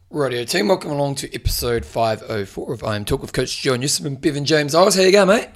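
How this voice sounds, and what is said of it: Hoarse, failing voice. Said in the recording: “I'm losing my voice. ... This job's all about my voice.”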